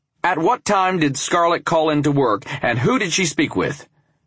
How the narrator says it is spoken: I asked firmly

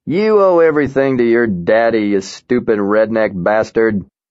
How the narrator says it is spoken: the Colonel could not keep himself from swearing while he taunted

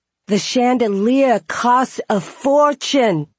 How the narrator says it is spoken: wailed

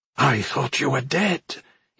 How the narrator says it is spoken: he whispered

